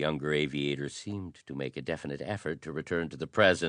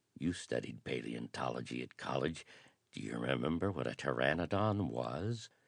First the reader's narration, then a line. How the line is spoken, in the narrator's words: whispered